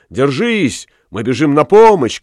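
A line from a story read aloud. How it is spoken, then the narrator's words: Group shouting. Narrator (Russian): кричали они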